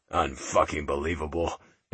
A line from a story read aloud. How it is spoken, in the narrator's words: he muttered